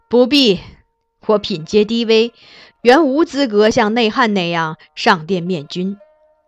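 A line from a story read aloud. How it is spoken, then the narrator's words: Slight smile. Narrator (Chinese): 他略一笑，道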